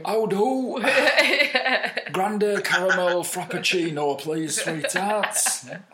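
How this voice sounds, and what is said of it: Put-on thick northern English accent. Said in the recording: “a really thick northern accent, like Manchester or something”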